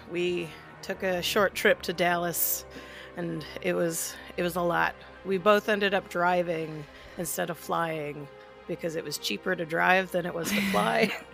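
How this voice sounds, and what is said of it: Strained, sick-sounding voice. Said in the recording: “hear from my voice as well that I am sick ... my congestion is gone, but you can kind of hear in my voice, like, my voice is, like, my vocal cords or whatever are strained”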